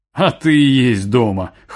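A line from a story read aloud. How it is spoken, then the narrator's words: Wry snort. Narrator (Russian): хмыкнул Камил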